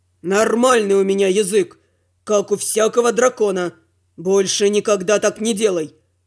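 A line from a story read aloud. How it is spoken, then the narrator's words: Growled. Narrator (Russian): Прорычал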